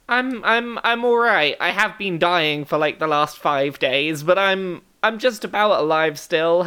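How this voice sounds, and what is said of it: Raspy, croaky sick voice. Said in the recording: “Enjoy my raspy voice. ... vocal fry”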